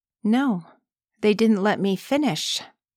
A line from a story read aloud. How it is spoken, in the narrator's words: she said evenly, with obvious amusement